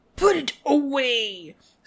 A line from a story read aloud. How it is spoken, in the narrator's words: snarled Snape